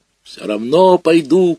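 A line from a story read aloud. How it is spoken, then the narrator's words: Shouting. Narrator (Russian): кричал я на бабушку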